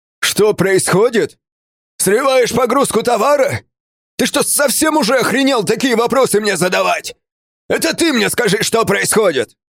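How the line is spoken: Deafening yell. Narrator (Russian): Заорал он так, что меня на миг оглушило

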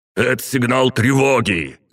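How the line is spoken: Shout. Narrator (Russian): крикнул Кимизов Весемиру

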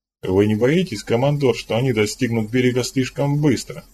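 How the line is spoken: Plain. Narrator (Russian): спросил Жан-Жак

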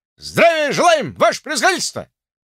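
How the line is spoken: Joyful loud group reply. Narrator (Russian): радостно и громко отвечает черная молодежь

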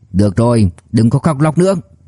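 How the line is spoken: Irritable snap. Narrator (Vietnamese): Vũ Chí Bảo gắt lên

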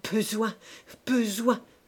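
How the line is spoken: Stammering. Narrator (French): balbutia-t-il

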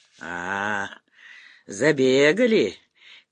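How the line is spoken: Old man's quiet laugh. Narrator (Russian): тихо засмеялся дед Мазай

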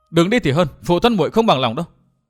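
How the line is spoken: Angry loud girl. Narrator (Vietnamese): thiếu nữ áo lam tức giận lớn tiếng nói

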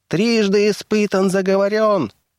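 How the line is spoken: Shrill, jubilant, straining squeak. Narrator (Russian): пищал он пронзительным голоском, ликуя и надсаживаясь

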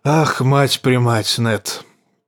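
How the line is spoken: Hoarse male voice. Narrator (Russian): проговорил хриплым голосом король

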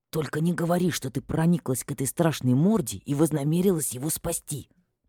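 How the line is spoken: Nervous hiss. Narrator (Russian): прошипел пришедший в себя Ферди, нервно топчась на моем плече

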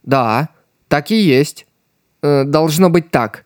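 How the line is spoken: Uncertain. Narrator (Russian): неуверенно добавил он

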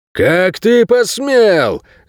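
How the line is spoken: Roaring werewolf. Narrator (Russian): взревел широкоплечий оборотень из первых рядов

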